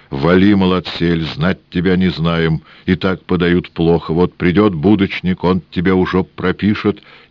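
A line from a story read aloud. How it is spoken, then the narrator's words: Grumbling old woman and man. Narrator (Russian): Бабка Кликуша и дед без нос заворчали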